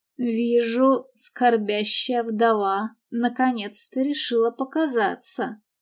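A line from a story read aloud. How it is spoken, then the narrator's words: Sarcastic mutter. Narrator (Russian): с необычным для него сарказмом пробормотал Паркер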